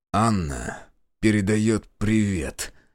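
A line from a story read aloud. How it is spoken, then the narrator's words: Through gritted teeth. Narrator (Russian): процедил Прохор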